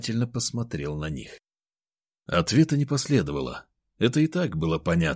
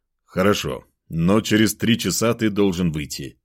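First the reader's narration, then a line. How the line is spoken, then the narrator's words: Stern. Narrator (Russian): строго сказал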